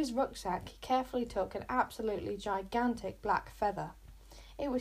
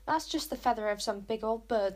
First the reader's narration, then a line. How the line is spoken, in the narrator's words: scoffed Luther